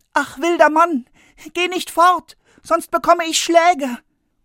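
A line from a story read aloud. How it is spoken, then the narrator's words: Frightened call after. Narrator (German): Der Junge aber bekam Angst und er rief ihm nach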